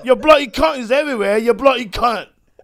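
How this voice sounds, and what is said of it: Good put-on British accent. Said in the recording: “That's really good British accent. ... It's not bad.”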